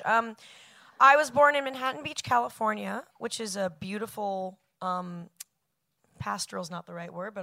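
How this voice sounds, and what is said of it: Moderately hoarse voice. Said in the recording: “How hoarse am I from last night's? I give it like a 6.”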